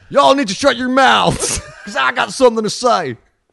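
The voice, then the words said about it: Put-on Southern American accent. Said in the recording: “Let me have another crack at Southern. I know there's certain listeners who think I can't do a Southern accent.”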